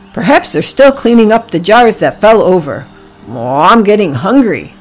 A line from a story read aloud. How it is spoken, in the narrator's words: Oliver grunted